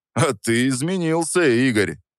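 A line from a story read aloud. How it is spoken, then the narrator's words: Scoffing. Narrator (Russian): Хмыкнул он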